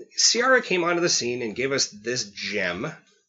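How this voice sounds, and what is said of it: Sarcastic inflection. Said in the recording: “that sounded like it was steeped in sarcasm ... Can you hear the inflection in my voice”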